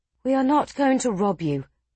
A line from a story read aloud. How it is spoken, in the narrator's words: Larda sighed